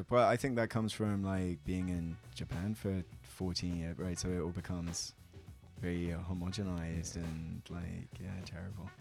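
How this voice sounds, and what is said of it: Mild British received pronunciation accent. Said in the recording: “you know you're from the UK ... I didn't pick up on the accent immediately. You don't have like a very strong ... receive pronunciation BBC style voice”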